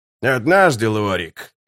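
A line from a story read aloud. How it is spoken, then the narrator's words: Growled. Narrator (Russian): прорычал Геборик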